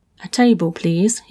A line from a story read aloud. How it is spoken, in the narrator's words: he muttered to the driver